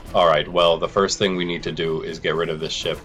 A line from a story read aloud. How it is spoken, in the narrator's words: Azik replied